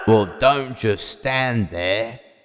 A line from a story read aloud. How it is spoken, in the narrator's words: growled the big bad wolf